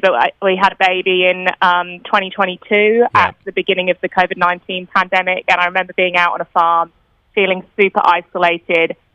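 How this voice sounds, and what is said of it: British accent, not Australian. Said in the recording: “I'm sure you can hear ... from my accent. I'm not originally from Australia. All my family are in the UK”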